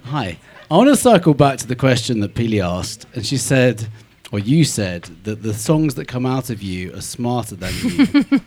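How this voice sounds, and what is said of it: British accent. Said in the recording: “has a British accent.”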